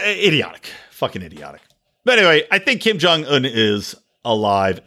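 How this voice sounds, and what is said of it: Usual voice. Nothing is said of it.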